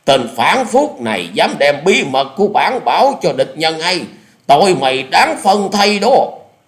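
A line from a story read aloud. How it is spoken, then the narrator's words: Shouted command. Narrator (Vietnamese): quát lên một tiếng như lệnh dở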